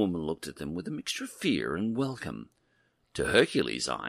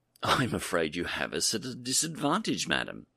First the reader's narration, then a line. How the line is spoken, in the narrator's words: A little flustered, he stammered